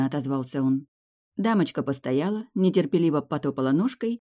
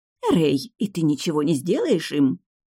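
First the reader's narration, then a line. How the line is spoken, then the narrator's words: Disapproving snake-like hiss. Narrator (Russian): зашипела она, как змея, с неодобрением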